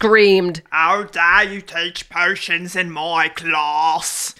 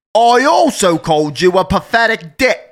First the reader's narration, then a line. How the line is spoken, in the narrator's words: Harry said loudly